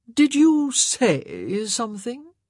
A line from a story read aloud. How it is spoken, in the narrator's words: He drawled